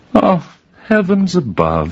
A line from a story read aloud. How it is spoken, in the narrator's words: laughed